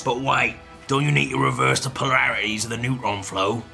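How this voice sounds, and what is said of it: Put-on Cockney accent. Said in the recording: “the word neutron's ever been said in a Cockney accent”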